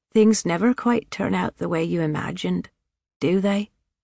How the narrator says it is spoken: Miss Branson said, her voice low and almost amused in tone

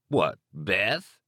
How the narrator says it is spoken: He laughed

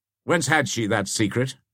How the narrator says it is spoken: said Beaumanoir

